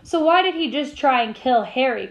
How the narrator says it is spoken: cried Hermione

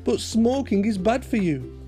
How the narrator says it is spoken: Betty exclaimed

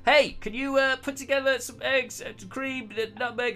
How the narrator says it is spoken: shouting across

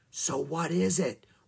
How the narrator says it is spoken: whispered

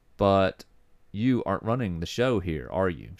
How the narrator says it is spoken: She said flatly

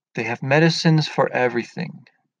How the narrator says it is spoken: Paradisi says

